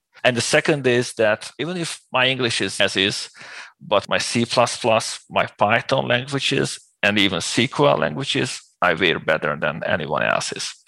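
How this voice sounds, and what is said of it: Speaks English with an accent. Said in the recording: “my accent”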